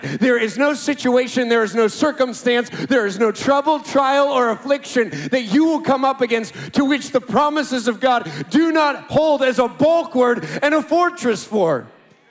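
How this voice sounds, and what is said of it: Loud, shouting preaching. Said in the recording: “I'm shouting at you so much”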